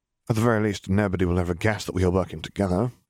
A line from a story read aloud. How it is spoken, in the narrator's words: Remus answered dryly